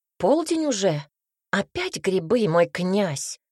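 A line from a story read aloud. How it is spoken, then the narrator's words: Exclaimed. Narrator (Russian): воскликнул Цинта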